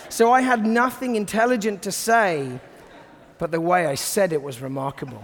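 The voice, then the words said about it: British accent. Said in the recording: “the British accent ... the British accent just adds a little bit of sophistication, a bit of gravitas”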